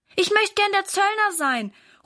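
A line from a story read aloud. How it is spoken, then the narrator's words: Calling out. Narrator (German): ruft Valentin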